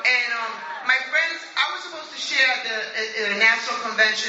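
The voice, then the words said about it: New York accent. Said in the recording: “I'm from New York. I don't know if you know from my accent”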